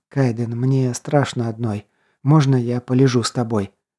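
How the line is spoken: Whispered into ear. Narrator (Russian): зашептала на ухо, едва-едва касаясь губами

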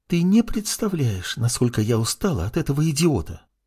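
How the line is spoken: Whispered. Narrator (Russian): с губ сорвалось шепотом

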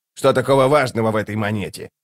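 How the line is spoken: Grumbled. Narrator (Russian): проворчал

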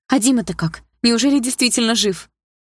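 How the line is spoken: Trembling voice. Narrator (Russian): спросила дрожащим голосом

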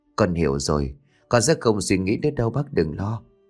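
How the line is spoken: Soft murmur. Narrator (Vietnamese): Cô thủ thỉ

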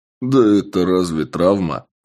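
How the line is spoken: Laughing. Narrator (Russian): рассмеялся я

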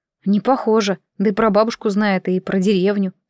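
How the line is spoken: Plain. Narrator (Russian): сказала девушка

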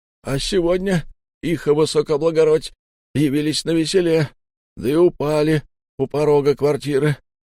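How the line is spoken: Sobbing narration. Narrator (Russian): рассказывал рядовой, судорожно всхлипывая

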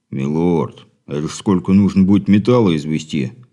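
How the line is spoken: Giant's booming rumble. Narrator (Russian): прогудел гигант

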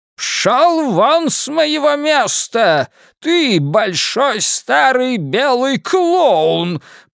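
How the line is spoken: Shouting. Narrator (Russian): прокричал Ричи

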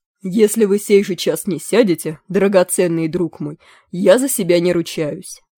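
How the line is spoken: Plain. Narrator (Russian): сказал Мерлин

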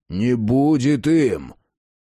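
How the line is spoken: Hoarse whisper. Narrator (Russian): его хриплый шепот

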